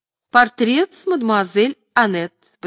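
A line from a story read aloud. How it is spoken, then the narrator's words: Laughing, chiming in. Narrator (Russian): подхватила, смеясь, Софи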